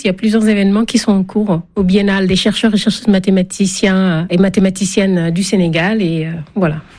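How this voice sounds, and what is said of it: French spoken with a regional accent. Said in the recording (French): “ça fait du bien d'entendre cet accent ... ces accents variés pour parler le français”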